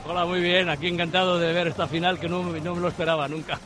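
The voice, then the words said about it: Spanish with a French accent. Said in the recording (Spanish): “con acento francés”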